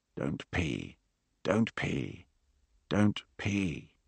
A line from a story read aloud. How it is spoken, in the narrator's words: Beauvoir took a breath and whispered to himself